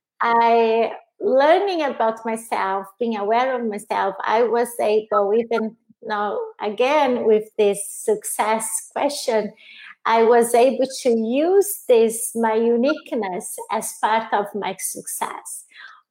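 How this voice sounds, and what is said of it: Non-native English accent. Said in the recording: “my weakness of having an accent and not being fluent in the language”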